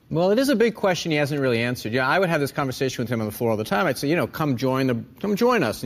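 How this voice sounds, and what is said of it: Usual voice. Nothing is said of it.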